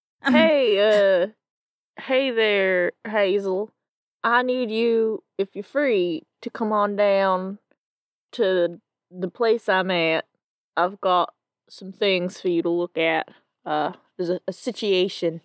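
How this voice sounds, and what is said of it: Attempted southern American accent. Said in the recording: “What the fuck is that voice? ... I don't know what voice you're doing. ... This is a southern accent”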